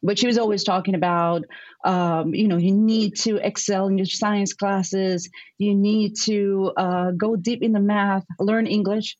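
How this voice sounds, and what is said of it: Strong Puerto Rican accent. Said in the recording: “I'm from Puerto Rico. So I have that very strong Puerto Rican accent still.”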